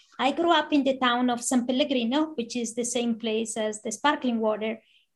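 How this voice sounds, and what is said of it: Italian accent in English. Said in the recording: “I'm from Italy, as you can probably tell from the accent”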